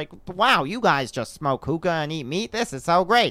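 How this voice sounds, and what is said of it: Imitates another person's voice, poorly. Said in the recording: “the worst Peter impression”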